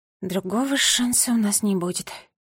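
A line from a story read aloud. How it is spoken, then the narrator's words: Said quietly. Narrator (Russian): тихо сказала она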